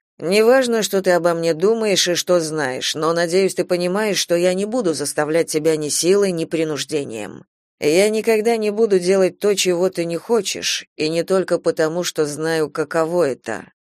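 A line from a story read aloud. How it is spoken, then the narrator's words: Even tone. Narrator (Russian): произнес он ровным тоном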